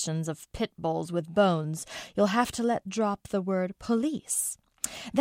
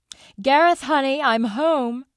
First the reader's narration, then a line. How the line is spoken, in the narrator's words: she shouted